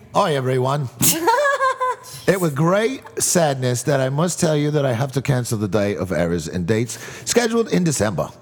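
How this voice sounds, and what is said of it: Mock British accent. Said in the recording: “I'll do it in a British accent ... It's going to be so bad ... sound like New Zealand, Australia, and England all sound the same”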